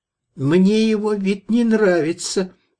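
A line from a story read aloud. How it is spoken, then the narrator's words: Shrill grating whine. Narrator (Russian): проныл визгливый голос, словно провели наждаком по стеклу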